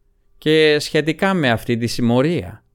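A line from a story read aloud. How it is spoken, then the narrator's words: Feigned indifferent voice, judge. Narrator (Greek): πρόσθεσε με δίθεν αδιάφορη φωνή ο δικαστής του αυτοκράτορα Εμχύρ ο Στέφαν Σκέλεν, ονομαζόμενος και Στριγκοπούλη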